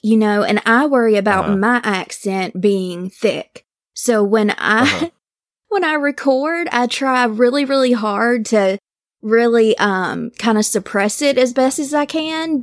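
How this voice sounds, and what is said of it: Southern American accent. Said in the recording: “oh, I love your Southern accent. I'm like, oh, I try so hard to like kind of suppress that, but it's impossible.”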